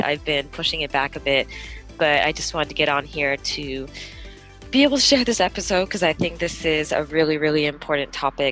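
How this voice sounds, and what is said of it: Slightly weird, off-sounding voice. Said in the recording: “Sorry if my voice is a little bit weird right now. I'm just getting over um, a flu.”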